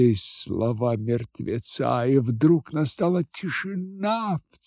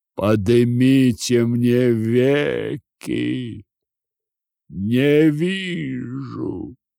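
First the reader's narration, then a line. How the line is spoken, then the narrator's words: Deep subterranean voice. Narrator (Russian): сказал подземным голосом Вий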